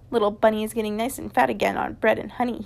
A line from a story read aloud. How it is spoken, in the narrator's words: he chuckled